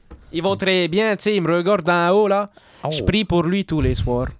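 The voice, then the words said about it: Put-on Québécois French accent. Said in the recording (French): “On a un Québécois, là ... accent”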